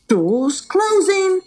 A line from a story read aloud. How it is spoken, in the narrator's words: cried out the bus driver